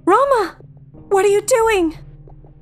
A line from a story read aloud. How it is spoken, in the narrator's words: Cheryl shouts after him, running forward